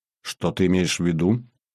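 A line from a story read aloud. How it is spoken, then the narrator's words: Plain. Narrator (Russian): спросил Жорик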